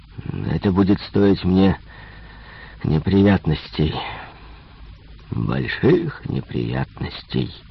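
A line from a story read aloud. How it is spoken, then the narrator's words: Moaning. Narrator (Russian): стонал начальник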